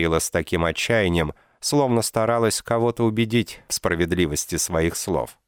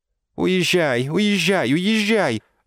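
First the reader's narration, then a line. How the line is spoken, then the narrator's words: Whimpering. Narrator (Russian): захныкала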